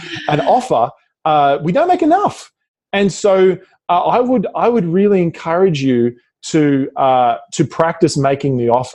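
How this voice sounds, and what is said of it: Australian accent. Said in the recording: “I'm saying offer as in my Australian accent.”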